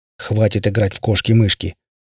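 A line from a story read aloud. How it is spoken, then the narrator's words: Angry. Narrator (Russian): злобно отозвался помощник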